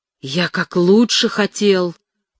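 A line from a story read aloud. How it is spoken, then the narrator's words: Hoarse wheezing whisper. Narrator (Russian): сипло-свистяще прошептал он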